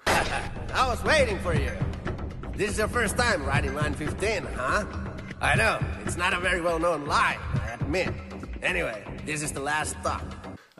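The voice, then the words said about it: Weird Finnish-sounding accent. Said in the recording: “talks with a weird accent ... Is a native Finnish-speaking person.”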